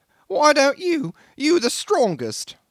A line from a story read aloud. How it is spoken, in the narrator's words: whined the little engineer